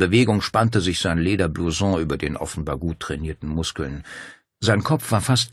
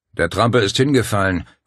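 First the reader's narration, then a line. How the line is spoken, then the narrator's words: Growling. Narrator (German): knurrte der andere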